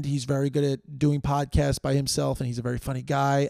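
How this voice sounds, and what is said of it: Worn-out, strained voice. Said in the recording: “my voice is worn out”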